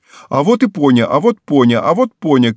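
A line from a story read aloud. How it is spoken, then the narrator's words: Girl shouting, parrot-like. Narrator (Russian): кричала ему вслед девочка, как попугай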